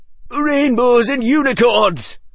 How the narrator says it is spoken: roared the Sunshine Captain

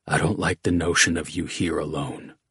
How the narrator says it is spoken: whispered

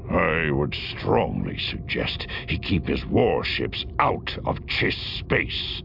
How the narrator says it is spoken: he growled

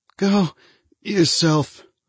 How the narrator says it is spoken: he said with a soft, stricken sigh

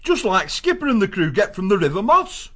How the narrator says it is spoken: Gonf exclaimed

